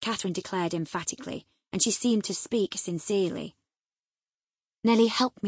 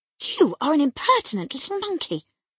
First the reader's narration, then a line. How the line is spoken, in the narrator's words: exclaimed Mrs